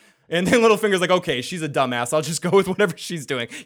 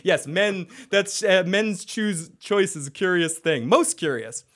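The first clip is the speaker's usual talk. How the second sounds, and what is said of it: Imitates Cersei's haughty voice. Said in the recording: “you do such a great Cersei impression. Perfect. You've been working on that. ... It really echoes in the throne room, too.”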